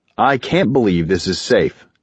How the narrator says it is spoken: Indiriel responded evenly

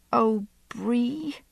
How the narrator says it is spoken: I said, my voice so choked I could barely speak

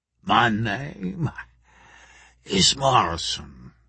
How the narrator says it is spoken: he wheezed

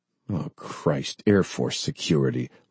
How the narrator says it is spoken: one of the men behind Bob growled

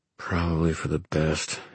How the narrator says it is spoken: he muttered to himself

